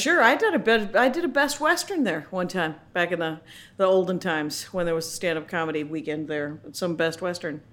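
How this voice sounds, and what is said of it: Midwestern American accent. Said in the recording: “I almost feel like I'm talking to my aunt with the Midwestern accent”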